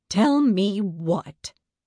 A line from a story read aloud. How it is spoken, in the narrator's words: Aunt Matilda snapped